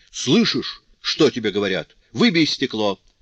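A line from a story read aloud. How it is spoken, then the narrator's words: Shouting father. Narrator (Russian): снова крикнул отец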